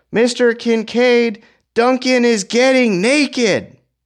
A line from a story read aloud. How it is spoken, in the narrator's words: Another girl observed and yelled